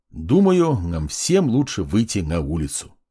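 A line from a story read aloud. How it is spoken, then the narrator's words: Calm. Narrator (Russian): спокойно проговорил я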